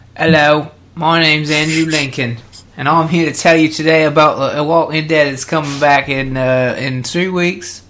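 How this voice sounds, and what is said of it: British accent. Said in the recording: “his British accent”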